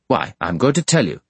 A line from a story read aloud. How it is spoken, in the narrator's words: said Bounderby, irritably